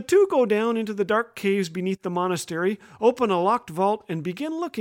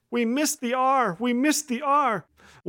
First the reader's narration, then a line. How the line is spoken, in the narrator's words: his superior wailing